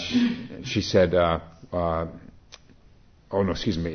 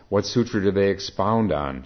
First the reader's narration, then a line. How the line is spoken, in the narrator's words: she asked